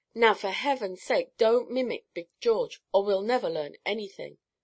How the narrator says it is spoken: Cherry exclaimed

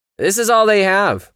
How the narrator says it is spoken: it yelled

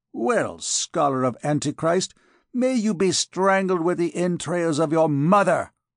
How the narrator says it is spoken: exclaimed Phoebus

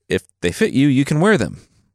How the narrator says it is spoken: Xuanzong replied

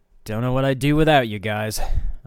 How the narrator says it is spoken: I grunted, working to shove the colossal beast off of me

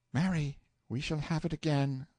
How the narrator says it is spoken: sighed the boy

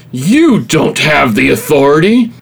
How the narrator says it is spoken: Bird screamed incredulously

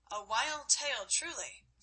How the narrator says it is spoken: said Godwin

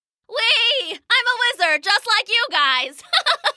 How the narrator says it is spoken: Gwip yelled with delight

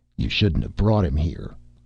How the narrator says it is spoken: growled the short man

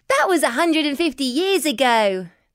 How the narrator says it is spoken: laughed Billy

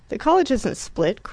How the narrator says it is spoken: cried Rickie, who got excited on this subject with unfailing regularity

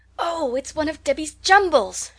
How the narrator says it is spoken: she exclaimed

